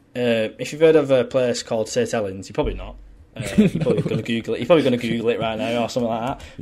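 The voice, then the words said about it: Fast-talking near-Liverpool English accent. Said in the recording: “I talk so quick ... I talk so quick, and my accent is weird because where I was born a part of like it's kind of a part of Liverpool kind of thing, but it's not”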